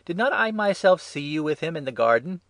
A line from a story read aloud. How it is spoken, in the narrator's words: One of the high priest's servants, a relation of the man whose ear Peter had cut off, exclaimed